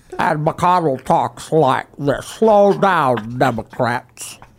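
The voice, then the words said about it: Slobbery, old-sounding mocking caricature voice. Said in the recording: “his Pelosi and McConnell impressions crack me up. They really drive home how old these people are... they're not really impressions. They're mockeries... caricature... A slobbery caricature... Dentures are out.”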